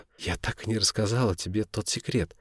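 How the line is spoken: Muttering. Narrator (Russian): забормотала она

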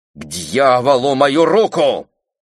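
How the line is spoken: Barked. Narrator (Russian): рявкнула она

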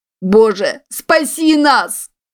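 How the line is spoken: Loud shout. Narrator (Russian): громко закричал кто-то

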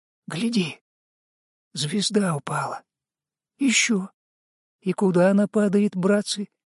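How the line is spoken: Quiet sailor's question. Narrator (Russian): тихо спросил чернявый матрос

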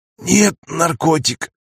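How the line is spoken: Hoarse reply. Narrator (Russian): хрипло отозвалась Рагна

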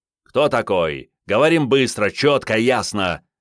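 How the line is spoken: Barking command. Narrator (Russian): рявкнул Андрей

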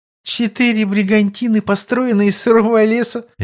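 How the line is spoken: Amused snort. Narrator (Russian): Весело фыркнула она

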